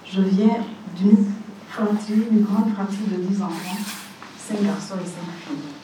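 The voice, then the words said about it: Speaks French with a foreign accent. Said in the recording (French): “Je vous demanderai d'être indulgent avec moi pour mon accent, pour mon français”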